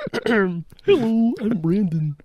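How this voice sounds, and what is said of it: Imitates another person's voice. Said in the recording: “Do you want me to do you? ... That's really good. ... I nailed you. ... you do one impression, but it's so good”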